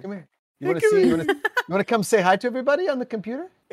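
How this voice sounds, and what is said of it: Put-on German accent. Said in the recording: “why are you talking in that accent? ... why are you German?”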